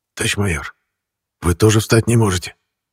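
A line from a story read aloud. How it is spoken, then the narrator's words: Quiet whispered question. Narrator (Russian): тихим шепотом спросил Максим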